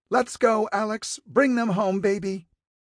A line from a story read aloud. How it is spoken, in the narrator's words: cupped her hands around her mouth, and yelled